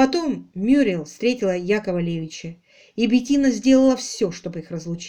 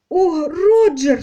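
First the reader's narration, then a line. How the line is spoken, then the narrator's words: Sobbing. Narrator (Russian): всхлипнула Мюриел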